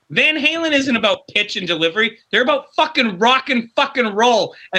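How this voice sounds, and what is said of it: Yelling. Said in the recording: “Sorry for yelling.”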